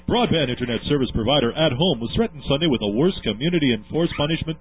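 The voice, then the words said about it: Announcer voice impression. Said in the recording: “my really good impersonation of announcer”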